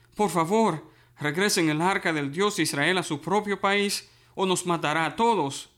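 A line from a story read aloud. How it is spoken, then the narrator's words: Crowd pleading. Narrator (Spanish): el pueblo les suplicó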